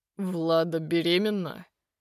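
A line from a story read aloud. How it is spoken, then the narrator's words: Dull, muffled question. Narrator (Russian): переспрашивает он глухо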